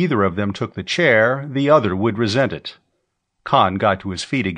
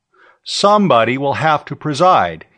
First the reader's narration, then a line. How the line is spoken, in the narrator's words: he said, loudly enough to cut through the babble at the long table